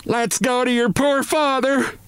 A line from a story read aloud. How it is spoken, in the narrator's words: this shout